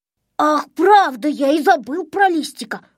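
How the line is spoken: Exclamation. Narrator (Russian): воскликнул Незнайка

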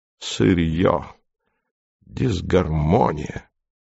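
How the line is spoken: Ugly muttering. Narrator (Russian): бормотал он безобразно

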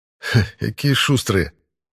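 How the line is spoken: Snort. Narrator (Russian): хмыкнул я

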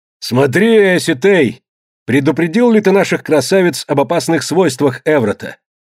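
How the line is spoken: Shouted after someone. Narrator (Russian): крикнул Минедем в спину начальнику

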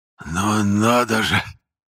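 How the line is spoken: Hoarse rasp. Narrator (Russian): прохрипел Хокус

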